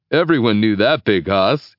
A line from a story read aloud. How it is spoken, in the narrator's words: he laughs